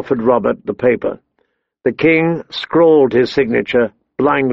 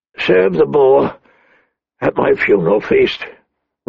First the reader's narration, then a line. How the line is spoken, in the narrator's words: Robert rasped